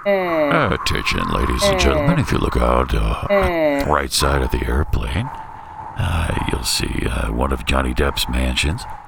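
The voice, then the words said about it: Airline pilot announcement voice. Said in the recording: “You do a great pilot voice.”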